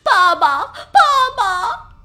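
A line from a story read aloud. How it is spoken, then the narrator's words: Crying out. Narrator (Chinese): 辛巴哭喊着说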